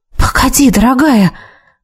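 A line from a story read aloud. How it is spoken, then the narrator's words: Uncertain half-whisper. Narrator (Russian): То ли прошептала, то ли подумала я, не понимая, как лучше к ней обращаться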